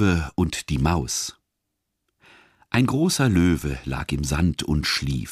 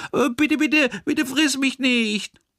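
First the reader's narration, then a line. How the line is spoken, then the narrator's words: Frightened mouse squeak. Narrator (German): Das Mäuslein piepste voller Angst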